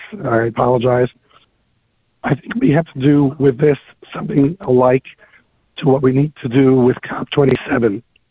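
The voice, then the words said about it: Slightly hoarse voice. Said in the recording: “I'm a little hoarse.”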